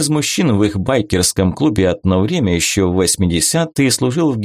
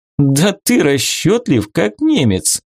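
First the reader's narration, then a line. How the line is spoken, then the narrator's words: Laughing. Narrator (Russian): хохотнула Вика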